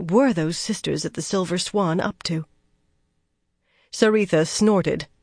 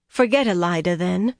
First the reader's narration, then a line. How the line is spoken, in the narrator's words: Saritha said